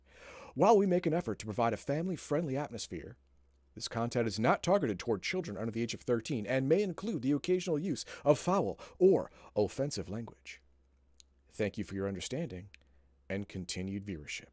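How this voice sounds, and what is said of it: Polished radio announcer voice. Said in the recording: “Got the good radio radio voice. ... I'm drifting into Batman right there. ... you got the Marge's sister's voice going on”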